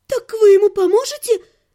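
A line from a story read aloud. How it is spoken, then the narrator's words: Trembling question. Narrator (Russian): спросила графиня дрожащим голосом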